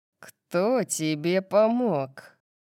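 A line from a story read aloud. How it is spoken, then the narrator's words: Growled. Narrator (Russian): прорычал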